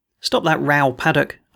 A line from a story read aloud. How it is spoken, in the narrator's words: I said